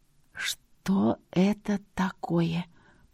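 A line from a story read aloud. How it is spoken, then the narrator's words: Fearful quiet, word by word. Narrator (Russian): по словам тихо произнесла, и почему-то опасаясь, что крылья меня услышат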